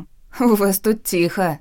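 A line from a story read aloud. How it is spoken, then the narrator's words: Giggling. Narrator (Russian): хихикнула Глашка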